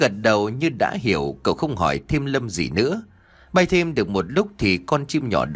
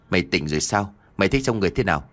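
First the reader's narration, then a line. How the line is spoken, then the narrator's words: Smiling. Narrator (Vietnamese): Tâm mỉm cười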